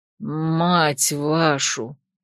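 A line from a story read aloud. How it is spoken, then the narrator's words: Exhausted moan. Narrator (Russian): обессиленно простонала я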